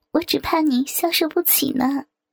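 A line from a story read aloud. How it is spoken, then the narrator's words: Laughing. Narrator (Chinese): 这时笑道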